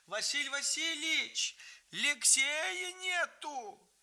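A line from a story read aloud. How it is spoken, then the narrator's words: Shouted. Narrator (Russian): Нянька Евгения закричала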